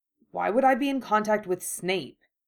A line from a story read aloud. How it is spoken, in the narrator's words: he said sharply